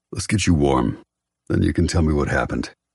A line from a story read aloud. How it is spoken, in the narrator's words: His voice husky, he says